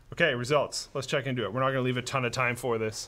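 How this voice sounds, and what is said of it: Strained, worn-out voice. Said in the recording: “my voice is kind of taken off right now. I think I've been talking for a little bit too long, despite being sick.”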